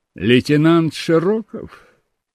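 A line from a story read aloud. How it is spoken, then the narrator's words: Bored voice. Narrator (Russian): проговорил капитан скучным голосом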